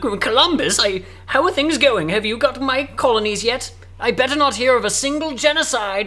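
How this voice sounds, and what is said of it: Put-on British accent. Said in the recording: “It's going to be a British accent”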